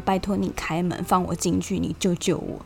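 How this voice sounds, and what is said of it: Quiet pleading whisper. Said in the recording (Chinese): “小小声的求他说”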